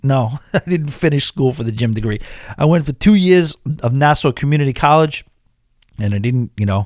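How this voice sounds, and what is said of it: Thick regional accent. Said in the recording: “Your accent is getting thicker”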